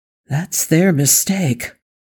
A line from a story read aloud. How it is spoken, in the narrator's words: Wesley breathed back